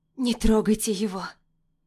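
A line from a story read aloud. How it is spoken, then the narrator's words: Hoarse. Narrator (Russian): Произношу хрипло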